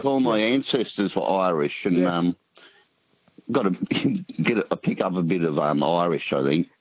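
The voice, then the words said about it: Australian accent, rural New South Wales. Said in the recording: “What kind of Aussie accent is it? ... I'm thinking it's country New South Wales.”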